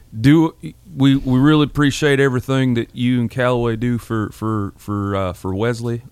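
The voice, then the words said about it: Imitates another person's voice. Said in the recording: “I won't do a George Bryan imitation, George Bryan III imitation of your dad. But maybe I will.”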